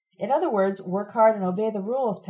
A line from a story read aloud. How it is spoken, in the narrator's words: Pat shouts